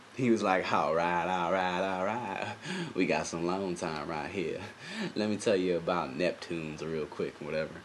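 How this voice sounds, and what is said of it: Matthew McConaughey impression. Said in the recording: “I don't know why I'm doing Matthew McConaughey right now”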